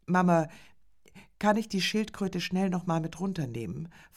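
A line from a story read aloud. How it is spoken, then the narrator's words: Hasty question. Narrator (German): fragte Viktor hastig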